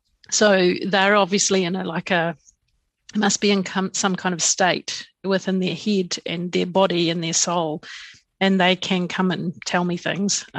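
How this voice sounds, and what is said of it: Hoarse, fading voice. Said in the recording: “I'm just losing my voice.”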